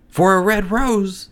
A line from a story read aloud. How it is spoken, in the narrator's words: they cried